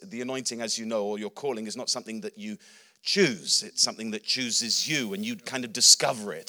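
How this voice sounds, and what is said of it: Slightly unusual English accent. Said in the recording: “My accent's a bit wonky, but I'm an Englishman.”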